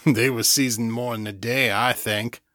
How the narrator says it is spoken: said, chuckling to himself

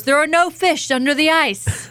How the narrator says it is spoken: the voice from above bellows

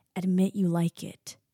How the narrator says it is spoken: growls

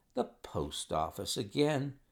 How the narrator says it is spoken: Holmes sighed wearily

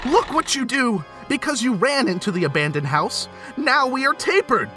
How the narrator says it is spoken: Tugs yelled

